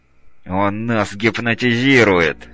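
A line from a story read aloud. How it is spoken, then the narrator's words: Through gritted teeth. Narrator (Russian): сквозь зубы проговорил Белый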